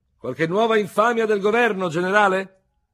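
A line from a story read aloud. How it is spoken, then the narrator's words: Shouted across room, deep-chested. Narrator (Italian): Un veterano dall'ampio torace gridò dall'altra estremità del caffè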